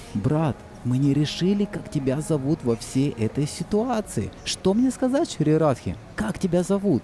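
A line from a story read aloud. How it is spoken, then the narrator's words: Whispered into ear. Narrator (Russian): Мадху Мангал прошептал на ухо пожилой гопи, на ухо Кришне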